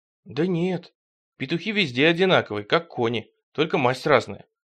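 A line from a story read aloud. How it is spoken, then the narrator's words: Glum reply. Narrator (Russian): уныло отвечал Тихон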